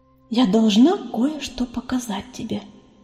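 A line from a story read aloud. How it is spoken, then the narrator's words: Whisper. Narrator (Russian): снова прошептала пестролистая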